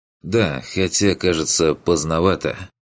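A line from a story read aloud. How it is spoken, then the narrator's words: Smirking. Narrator (Russian): хмыкнул второй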